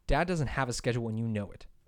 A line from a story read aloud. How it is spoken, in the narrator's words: Thomas snapped back